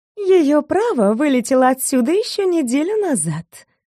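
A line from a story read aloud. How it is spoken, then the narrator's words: Purring young woman. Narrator (Russian): мурлыкнула девушка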